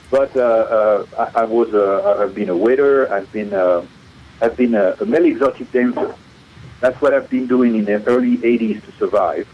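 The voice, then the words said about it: French accent in English. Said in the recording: “I want to lose my French accent ... So I kept it”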